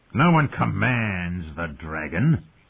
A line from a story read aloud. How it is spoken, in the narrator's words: Viserys snarled